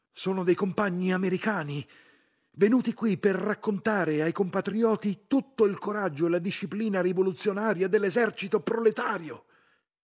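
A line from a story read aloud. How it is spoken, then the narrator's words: Shouting. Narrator (Italian): gridando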